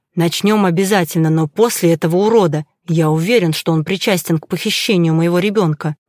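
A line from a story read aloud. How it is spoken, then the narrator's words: Barely restrained furious mutter. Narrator (Russian): процедил я, едва сдерживая ярость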